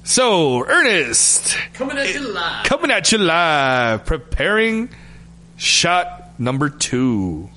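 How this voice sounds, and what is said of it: Radio announcer voice. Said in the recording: “should I come out with my? ... The radio voice.”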